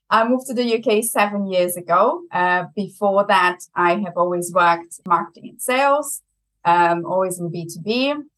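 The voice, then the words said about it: Strong German accent. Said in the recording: “I have a very German accent.”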